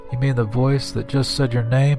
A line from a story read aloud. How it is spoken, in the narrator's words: His voice was shaky